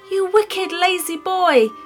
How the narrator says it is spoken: she shouted

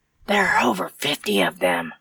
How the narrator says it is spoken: Dave whispered

